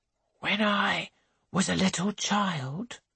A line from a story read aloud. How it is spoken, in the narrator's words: whispers